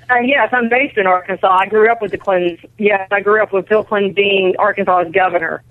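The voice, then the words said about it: Southern American accent. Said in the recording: “I'm detecting a southern accent there.”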